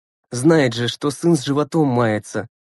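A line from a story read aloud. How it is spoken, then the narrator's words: Grumbling under breath. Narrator (Russian): ворчал про себя Глеб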